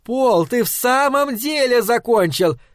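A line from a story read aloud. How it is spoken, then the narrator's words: Shouting from corridor. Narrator (Russian): крикнула она из коридора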